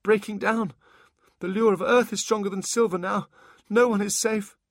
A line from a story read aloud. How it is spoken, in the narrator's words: he gasped